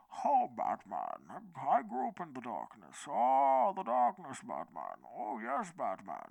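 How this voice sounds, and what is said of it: Muffled movie villain voice. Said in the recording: “I put my hand over my mouth to do the Bane voice.”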